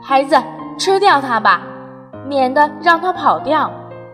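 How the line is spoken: Loud, anxious. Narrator (Chinese): 袋鼠妈妈怕它跑掉 大声说

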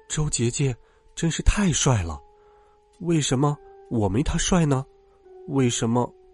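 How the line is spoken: Muttering to oneself. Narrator (Chinese): 喃喃自语道

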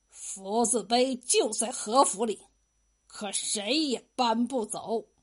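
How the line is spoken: Through gritted teeth. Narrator (Chinese): 和珅留下一句咬牙切齿的话

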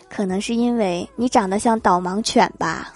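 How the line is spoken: Cool, indifferent. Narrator (Chinese): 淡淡的看了他一眼，说

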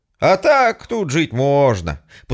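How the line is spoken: Forced cheerfulness. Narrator (Russian): постарался как можно бодро сказать

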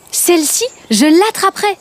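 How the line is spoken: Exclaimed. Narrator (French): s'exclama-t-il

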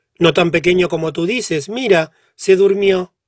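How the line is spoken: Exclaimed. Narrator (Spanish): exclamó

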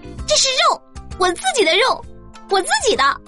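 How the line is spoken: Angry loud shout. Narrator (Chinese): 我愤怒的大声喊道

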